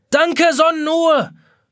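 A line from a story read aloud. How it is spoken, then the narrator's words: Shouting. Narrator (German): schreit Jonas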